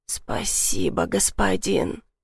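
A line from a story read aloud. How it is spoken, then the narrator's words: Hoarse, muffled, convulsing. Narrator (Russian): прохрипела в подушку, вздрагивая от крупных судорог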